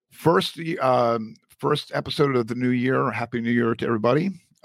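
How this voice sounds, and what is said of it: Hoarse, failing voice. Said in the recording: “Excuse me ... as I lose my voice”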